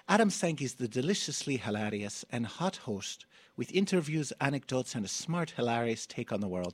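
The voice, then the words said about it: Mangled attempt at Irish accent. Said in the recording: “I'm sorry if I mangled your accent.”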